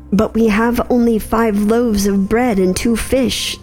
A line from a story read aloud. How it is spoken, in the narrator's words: they answered